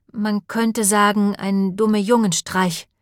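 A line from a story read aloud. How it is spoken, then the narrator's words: Plain. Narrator (German): sagte Beth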